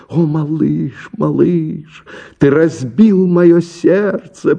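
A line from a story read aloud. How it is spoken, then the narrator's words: Moaning. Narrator (Russian): простонала она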